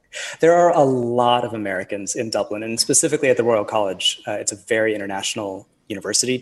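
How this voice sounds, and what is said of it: American accent. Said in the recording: “your accent? ... the American accent”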